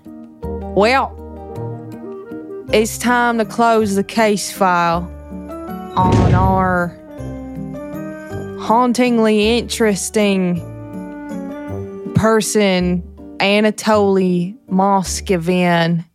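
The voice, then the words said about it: Put-on Southern US accent. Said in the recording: “Can you do a southern accent?”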